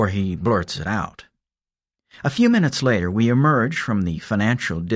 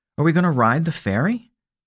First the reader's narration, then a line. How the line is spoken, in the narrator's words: she asks